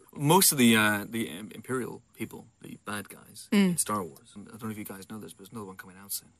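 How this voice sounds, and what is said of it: Usual voice. Nothing is said of it.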